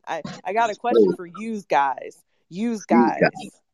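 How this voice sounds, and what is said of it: Put-on Brooklyn accent. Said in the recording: “Brooklyn accent.”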